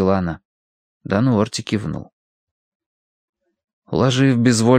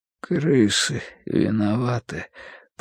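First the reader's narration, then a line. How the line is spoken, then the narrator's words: Sudden mutter. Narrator (Russian): пробормотал вдруг Бадри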